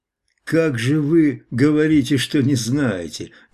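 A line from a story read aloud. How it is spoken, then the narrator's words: Calm interjection. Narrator (Russian): вмешался спокойно Хвостов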